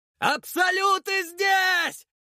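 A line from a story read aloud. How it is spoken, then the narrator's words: Yelling at full voice. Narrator (Russian): заорал я во весь голос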